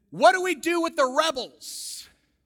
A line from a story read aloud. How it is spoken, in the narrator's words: a famous senator from Iowa, I think this was James Harlan, he yelled out at Lincoln, he said